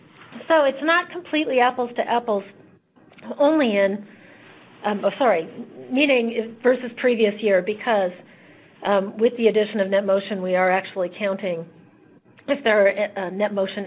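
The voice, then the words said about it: Hoarse, failing voice. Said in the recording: “It's a little early in the process for me to already be losing my voice.”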